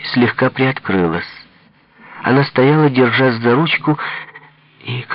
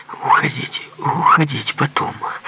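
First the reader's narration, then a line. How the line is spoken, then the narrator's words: Whispered. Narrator (Russian): прошептала Ирина Николаевна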